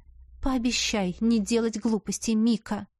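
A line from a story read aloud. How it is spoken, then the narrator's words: Mother sighing. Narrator (Russian): вздохнула матушка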